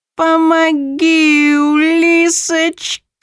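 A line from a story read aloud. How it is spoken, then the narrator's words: Cat's wail. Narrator (Russian): Взвыл кот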